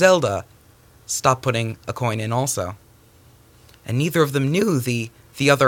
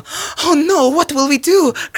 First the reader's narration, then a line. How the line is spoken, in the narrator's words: cried Zelda